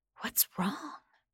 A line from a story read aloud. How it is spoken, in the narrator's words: I whispered